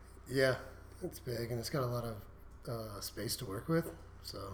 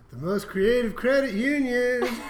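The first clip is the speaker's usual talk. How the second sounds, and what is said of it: Sung impression of a coworker. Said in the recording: “your best Lisa impression? ... She sings a lot.”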